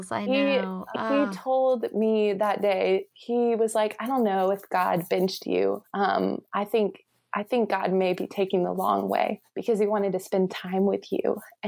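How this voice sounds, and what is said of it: Choked-up, emotional voice. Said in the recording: “I'm like getting choked up talking about it”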